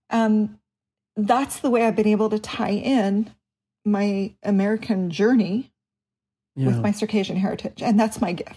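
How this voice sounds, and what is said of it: Emotional voice. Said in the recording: “I'm getting emotional.”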